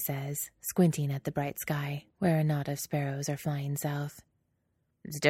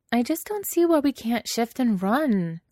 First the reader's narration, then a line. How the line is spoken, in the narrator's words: Alana whines